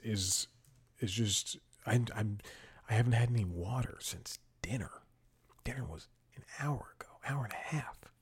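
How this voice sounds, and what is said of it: Dry, parched voice. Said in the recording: “My voice was so dry”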